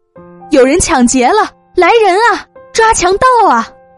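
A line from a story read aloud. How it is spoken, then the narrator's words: Panicked woman shouting. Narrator (Chinese): 一位中年妇女惊慌失措的喊着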